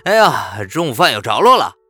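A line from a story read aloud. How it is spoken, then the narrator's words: Very loud exclamation. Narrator (Chinese): 我的声音是如此之大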